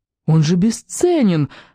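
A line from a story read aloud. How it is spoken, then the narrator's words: Exclaimed. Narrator (Russian): воскликнул Сим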